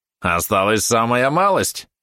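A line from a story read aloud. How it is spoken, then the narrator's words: Snide yapping. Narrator (Russian): ехидно тявкнул Валерон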